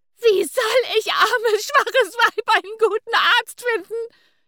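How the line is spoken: Indignant shriek. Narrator (German): kreischte Caroline Luise empört auf

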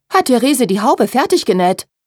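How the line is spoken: Frightened call. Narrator (German): rief Charlotte erschrocken

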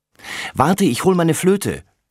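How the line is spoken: Called out. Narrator (German): ruft sie

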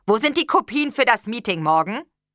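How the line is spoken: Barked. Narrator (German): bellte

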